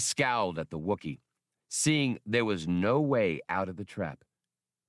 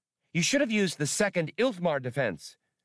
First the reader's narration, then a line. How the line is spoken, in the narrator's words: Blue Max volunteered brightly